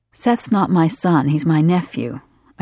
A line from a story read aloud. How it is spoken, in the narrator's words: I said